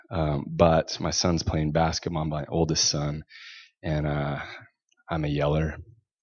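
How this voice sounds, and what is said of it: Sore-throated voice with a cold. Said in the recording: “my throat hurts... I have a little bit of a cold”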